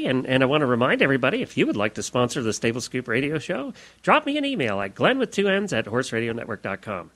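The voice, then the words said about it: Big radio announcer voice. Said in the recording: “you put your plug voice on, too ... I got my big announcer voice on”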